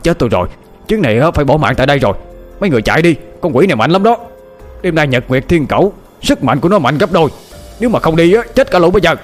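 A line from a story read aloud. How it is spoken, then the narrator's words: Panicked cry. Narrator (Vietnamese): Lão mau thấy một luồng âm khí dày đặc bám xung quanh người lão Hoang thì miệng la lên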